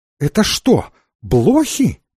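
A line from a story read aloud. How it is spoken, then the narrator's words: Exclaiming. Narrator (Russian): воскликнула Айви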